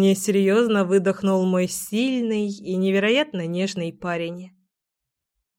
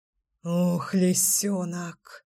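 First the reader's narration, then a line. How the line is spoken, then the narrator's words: Ragged exhale. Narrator (Russian): Рвано выдохнул Гром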